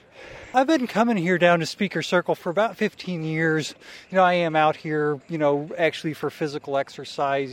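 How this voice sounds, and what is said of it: Out of breath, panting speech. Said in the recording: “I'm totally out of breath.”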